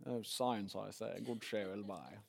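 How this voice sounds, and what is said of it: Put-on British accent. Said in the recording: “You have to say science with a British accent, don't you?”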